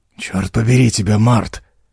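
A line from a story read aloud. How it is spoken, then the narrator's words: Grumble. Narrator (Russian): проворчал он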